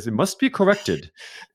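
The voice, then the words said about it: Bad put-on British accent. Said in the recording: “That was a horrible British accent, sorry.”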